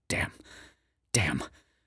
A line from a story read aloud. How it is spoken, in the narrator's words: the man whispers, sweating